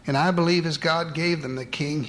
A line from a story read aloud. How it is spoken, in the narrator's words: he cried